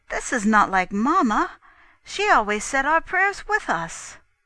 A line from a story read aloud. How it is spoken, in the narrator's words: I was equally astonished and exclaimed